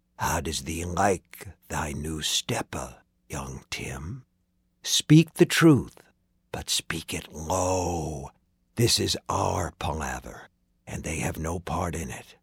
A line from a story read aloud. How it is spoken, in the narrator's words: In Tim's ear, which was still ringing, he whispered